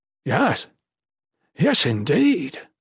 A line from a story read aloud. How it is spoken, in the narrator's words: Saturnus exclaimed excitedly